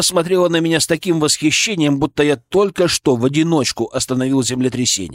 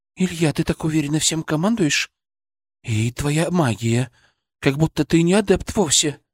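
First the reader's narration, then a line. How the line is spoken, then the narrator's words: Whisper. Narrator (Russian): прошептала она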